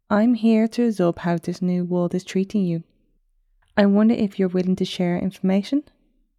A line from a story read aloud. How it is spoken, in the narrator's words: Alentra replied calmly